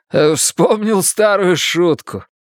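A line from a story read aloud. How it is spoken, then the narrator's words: Laughing despite fear. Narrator (Russian): ответил Луис, продолжая смеяться, несмотря на испуг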